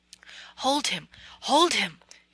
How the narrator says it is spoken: he cried

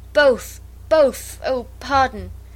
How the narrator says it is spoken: Bertram cried out

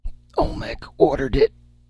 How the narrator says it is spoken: gasped the dying man

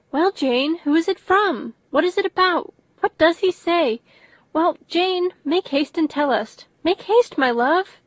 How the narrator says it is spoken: Bennet's eyes sparkled with pleasure, and she was eagerly calling out

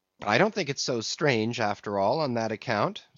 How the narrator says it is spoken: said Flask

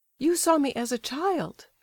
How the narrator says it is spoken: exclaimed the prince, with surprise

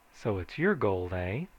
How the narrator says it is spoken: I said

